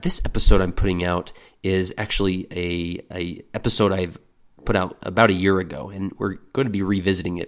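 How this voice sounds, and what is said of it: Voice much lower than usual, sick. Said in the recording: “my voice is a bit out of sync. I'm a few octaves lower than usual because I've got an intense cold and cough”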